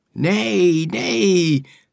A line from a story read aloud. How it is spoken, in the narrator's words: they cried eagerly